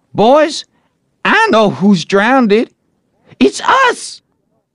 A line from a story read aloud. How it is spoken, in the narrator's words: a revealing thought flashed through mind, and he exclaimed